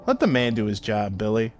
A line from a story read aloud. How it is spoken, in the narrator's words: Vine said, his tone neutral